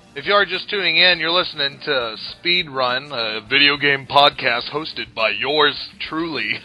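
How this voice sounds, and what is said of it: Smooth announcer-style radio voice. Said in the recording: “I got a good radio voice. ... So good.”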